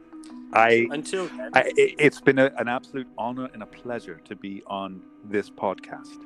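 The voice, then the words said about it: Pleasant voice with an accent. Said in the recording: “your dulcet tones and accent ... It means nice voice.”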